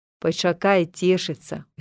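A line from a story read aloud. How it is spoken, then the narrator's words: Smiling. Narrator (Belarusian): усміхнуўся Віктар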